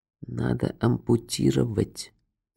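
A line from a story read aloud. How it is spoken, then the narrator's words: Quiet. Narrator (Russian): тихо произнес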